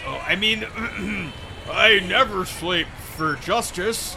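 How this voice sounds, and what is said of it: Heroic Superman character voice. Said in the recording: “doing your Superman voice”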